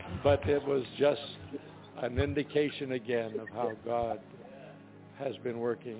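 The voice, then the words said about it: Hoarse, strained voice. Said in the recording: “Forgive my voice, so I've lost it today.”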